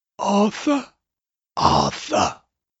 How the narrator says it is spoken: whispered in an inexpressibly peevish, rasping voice

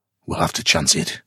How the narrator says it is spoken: he grunted

